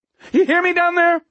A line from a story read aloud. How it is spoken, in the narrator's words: Waxy cried